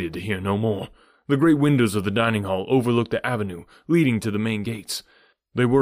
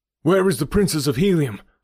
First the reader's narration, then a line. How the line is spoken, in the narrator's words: I cried